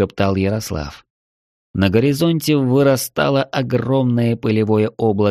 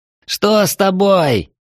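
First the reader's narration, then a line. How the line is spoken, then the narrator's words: Yell. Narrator (Russian): заорал Ярослав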